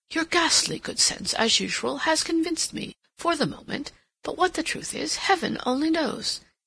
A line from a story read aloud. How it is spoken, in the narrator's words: he exclaimed